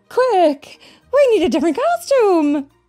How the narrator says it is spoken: cried Carol

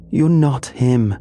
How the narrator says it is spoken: she screamed, her voice raw and trembling

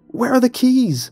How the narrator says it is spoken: I cried

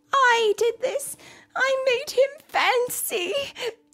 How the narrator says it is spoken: sobbed

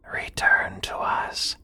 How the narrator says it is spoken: in a whisper

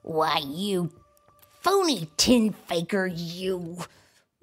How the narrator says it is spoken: growled the old grump

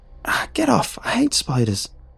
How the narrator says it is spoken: I squealed

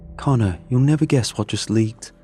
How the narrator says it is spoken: Adam eagerly said

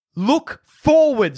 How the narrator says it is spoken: yells to everyone in the line

